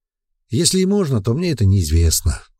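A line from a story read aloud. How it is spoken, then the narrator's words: Sighing. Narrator (Russian): вздохнул эльф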